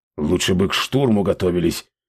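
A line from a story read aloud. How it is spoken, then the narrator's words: Grumbling chief. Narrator (Russian): проворчал вождь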